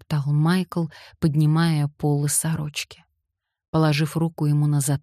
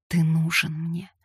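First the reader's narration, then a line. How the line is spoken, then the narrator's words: Pleading moan. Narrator (Russian): умоляюще простонала она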